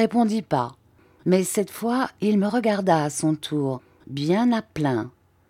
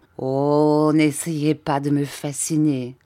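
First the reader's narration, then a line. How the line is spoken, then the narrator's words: Sneering. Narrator (French): repris-je en ricanant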